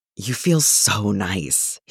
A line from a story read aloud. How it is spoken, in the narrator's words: he sighs out